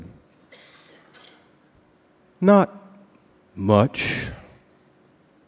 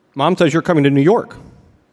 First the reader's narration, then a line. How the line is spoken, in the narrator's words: I said quickly